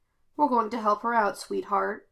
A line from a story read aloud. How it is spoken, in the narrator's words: Kane murmured